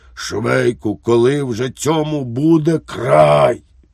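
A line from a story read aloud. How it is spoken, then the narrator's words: Hoarse exclamation. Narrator (Ukrainian): Поручник Лукаш охриплим голосом вигукнув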